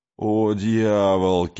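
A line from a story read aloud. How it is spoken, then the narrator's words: Loud laughter. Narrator (Russian): Кей захохотал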